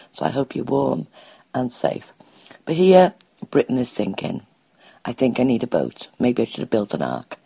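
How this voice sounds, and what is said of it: Hoarse, strained, sore-throated voice. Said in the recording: “my voice sounds terrible ... You sound terrible ... awful, like your throat really hurts”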